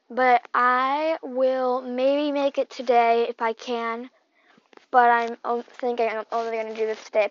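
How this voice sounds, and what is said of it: Sore, cracking voice. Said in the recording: “my voice is so sore right now ... my voice is starting to crack because my voice is really sore from reading”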